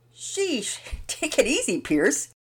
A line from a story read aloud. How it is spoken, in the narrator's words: Daddy Peters laughed